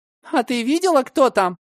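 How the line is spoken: Trembling voice. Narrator (Russian): дрожащим голосом ответила Валя

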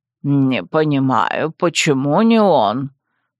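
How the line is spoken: Grumbling merchant. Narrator (Russian): Опять заворчал представитель торговой гильдии

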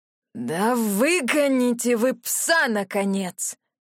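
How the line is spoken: Exasperated wheezing old man. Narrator (Russian): не выдержал старик и захрипел

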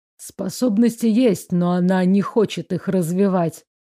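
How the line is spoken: Curt mutter. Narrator (Russian): буркнул Артгал

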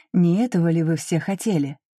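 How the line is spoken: Deliberately calm. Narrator (Russian): нарочито спокойно сказала я

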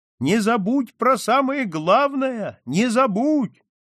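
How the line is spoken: Shout through cupped hands. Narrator (Russian): она сложила ладони рупором и крикнула

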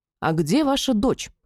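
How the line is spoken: Stern question. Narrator (Russian): строго спросила Мадина

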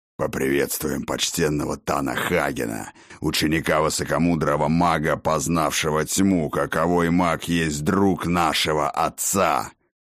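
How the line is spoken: Hoarse goblin growl. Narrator (Russian): хриплым рыком произнес вожак гоблинов

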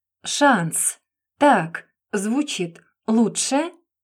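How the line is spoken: Slow, smiling speech. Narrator (Russian): Медленно двигая челюстью, улыбнулся он

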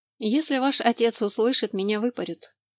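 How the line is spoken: Calm reply. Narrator (Russian): спокойно отвечала та

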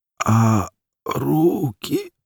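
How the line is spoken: Hoarse wheeze. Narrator (Russian): просипел

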